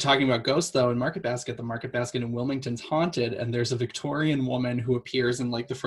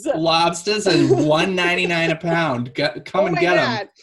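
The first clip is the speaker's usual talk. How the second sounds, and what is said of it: Old-timey Boston accent. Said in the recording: “slipping into the Kennedy accent too. The old timey Boston accent.”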